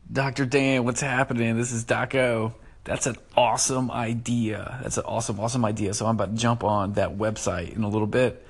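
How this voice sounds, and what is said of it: Rough, smoker-like voice. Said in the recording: “my voice sounds so weird. I sound like a smoker today. I don't smoke. ... it sounded really weird. So I don't normally sound this creepy.”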